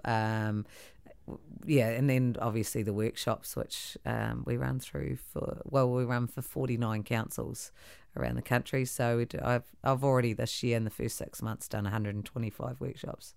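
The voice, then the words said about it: Husky, deep voice. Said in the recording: “my voice is so husky ... It feels like it's gone down a couple octaves”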